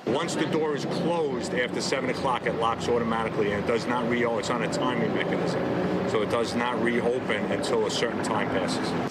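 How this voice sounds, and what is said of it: New York accent. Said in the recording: “Judging by the accent, where did this take place ... somewhere around New York or Jersey ... This is New York.”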